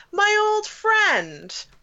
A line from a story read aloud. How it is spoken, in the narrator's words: Agios cried out